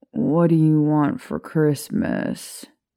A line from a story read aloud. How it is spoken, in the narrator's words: Remus groaned the question into a pillow